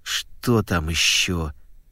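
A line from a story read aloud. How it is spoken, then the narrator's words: Gloomy question. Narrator (Russian): мрачно спросила Клариса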